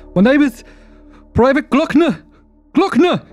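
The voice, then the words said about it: Shouting loudly. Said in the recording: “Stop shouting.”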